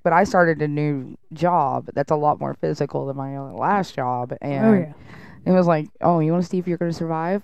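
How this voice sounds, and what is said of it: Stuffy, congested-sounding voice. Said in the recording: “I did too. Like, you can hear it in my voice. I think everybody's going to be able to hear it in my voice, so I won't be able to hide it well.”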